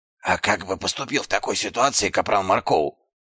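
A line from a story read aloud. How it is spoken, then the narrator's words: Whispered question. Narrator (Russian): шепотом спросил Дубинс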